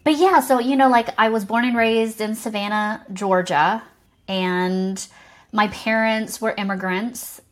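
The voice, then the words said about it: Mild Southern American accent. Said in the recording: “this deep Southern belle accent ... maybe you've calmed it down a little bit ... it used to be a lot deeper”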